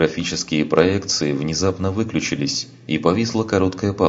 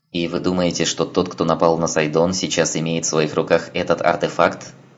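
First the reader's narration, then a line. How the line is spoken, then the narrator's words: Plain. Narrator (Russian): спросил соларианец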